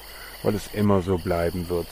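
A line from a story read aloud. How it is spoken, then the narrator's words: Sighing. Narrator (German): seufzte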